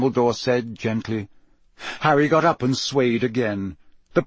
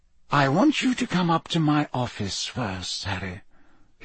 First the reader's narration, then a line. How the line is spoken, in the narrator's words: he said quietly